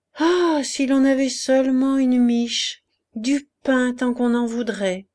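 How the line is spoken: Hungry sigh. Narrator (French): soupira la poule qui souffrait de la faim plus que les autres, torturée par son gros appétit

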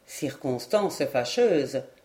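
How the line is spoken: Plain. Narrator (French): dit Lord Edward

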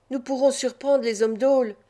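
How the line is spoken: Exclaimed. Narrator (French): s'écria Loulamre

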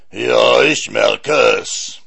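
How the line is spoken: Giant roaring. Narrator (German): brüllte der Riese

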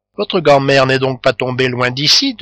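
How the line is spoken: Plain. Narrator (French): demanda la Goualeuse

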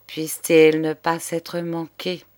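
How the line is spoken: Old man murmuring, anger fading. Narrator (French): murmurait le bonhomme, dont la colère ne tenait pas devant ce spectacle

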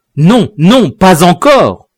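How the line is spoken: Exclaimed. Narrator (French): s'écria le suffète

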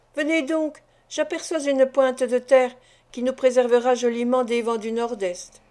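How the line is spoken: Exclaimed. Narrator (French): s'écria-t-il

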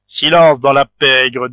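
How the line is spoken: Skeleton's imperious command. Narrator (French): dit le squelette d'une voix impérieuse

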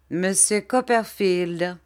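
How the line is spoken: Plain. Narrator (French): dit Steerforth

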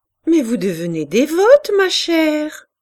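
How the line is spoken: Laughing. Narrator (French): dit un soir Madame de Berle en riant

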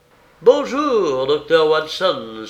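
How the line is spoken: Cheerful exclamation. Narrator (French): s'écria-t-il avec une bonne humeur inaccoutumée

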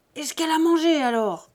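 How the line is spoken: Enraged shout. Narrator (French): criait Buteau hors de lui

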